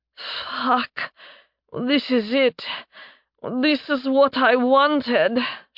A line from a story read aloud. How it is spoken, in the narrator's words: moaned out